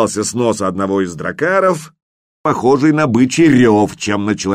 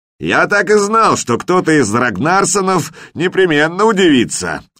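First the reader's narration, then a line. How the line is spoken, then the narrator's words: Yelled. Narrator (Russian): заорал в ответ наш вождь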